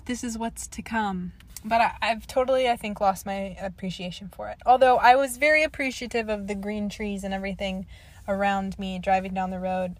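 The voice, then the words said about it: Slightly wonky, worn-out voice. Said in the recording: “my voice is probably a little wonky because I've been singing to the songs ... I'm wearing out my vocal cords”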